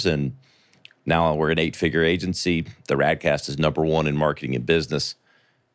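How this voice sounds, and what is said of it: Southern American accent. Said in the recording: “a little Southern charm, as I can hear in your voice there ... recognize that from South Carolina”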